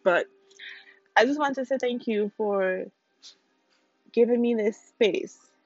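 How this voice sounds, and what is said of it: Emotional voice cracking, near tears. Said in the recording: “I'm not going to cry. I don't know if you can hear my voice cracking”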